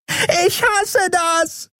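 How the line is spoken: Shrieked. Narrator (German): kreischte Nelen in ihrem Versteck

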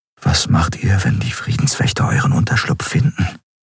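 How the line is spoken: Quiet question. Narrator (German): fragte Kai leise

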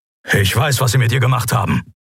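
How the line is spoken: Low grumble. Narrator (German): brummte Kero

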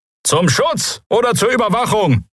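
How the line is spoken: Calling out. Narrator (German): rief jemand

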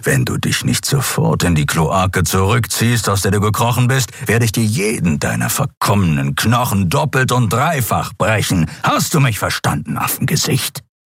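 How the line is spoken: Creature growling. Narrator (German): knurrte der Skriar

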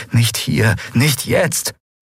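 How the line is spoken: Pleading. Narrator (German): flehte

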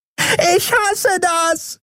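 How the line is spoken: Shrieked from hiding. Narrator (German): kreischte Nelen in ihrem Versteck

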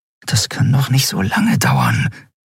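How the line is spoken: Murmur. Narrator (German): murmelte Andriel

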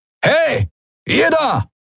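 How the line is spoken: Human bellowing. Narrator (German): den Menschen brüllen

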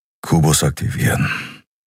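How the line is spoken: Quiet. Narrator (German): sagte er leise

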